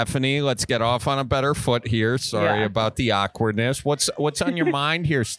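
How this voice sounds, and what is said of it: Usual voice. Nothing is said of it.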